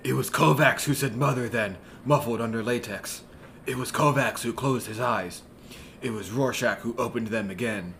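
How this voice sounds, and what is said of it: Rorschach character voice. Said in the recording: “do the voice?”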